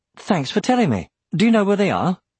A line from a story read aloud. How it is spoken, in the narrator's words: his voice barely trembled